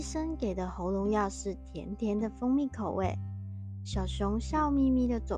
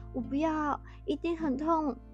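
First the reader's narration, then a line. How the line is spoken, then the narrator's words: Sobbing. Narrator (Chinese): 大野狼一把鼻涕一把眼泪，哭花着脸，他说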